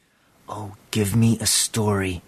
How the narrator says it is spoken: he whispered

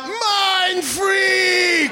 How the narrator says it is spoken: screamed out

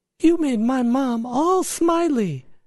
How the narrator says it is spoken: exclaimed

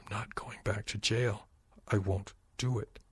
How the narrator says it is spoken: Cole whispered

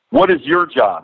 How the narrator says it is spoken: he yells to the boys

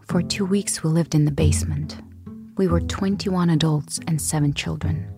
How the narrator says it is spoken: The girl, who was about 6 years old, told me in a serious voice

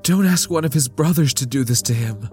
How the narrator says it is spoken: Lita pleaded

